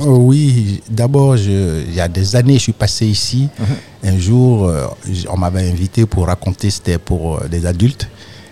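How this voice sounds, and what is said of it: Ivorian French accent. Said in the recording (French): “tu as un accent ivoirien, toi ... j'ai un vrai accent ivoirien”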